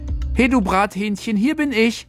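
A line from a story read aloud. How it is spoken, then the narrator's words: Exuberant call. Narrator (German): Felix rief übermütig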